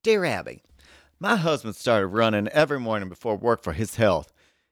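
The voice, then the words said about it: Put-on Southern American accent. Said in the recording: “Southern accent.”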